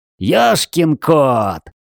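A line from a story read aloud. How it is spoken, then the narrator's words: Yelling. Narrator (Russian): заорал Джей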